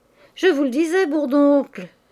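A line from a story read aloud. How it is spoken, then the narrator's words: Exclaiming with a smile. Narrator (French): s'écria Mouret en souriant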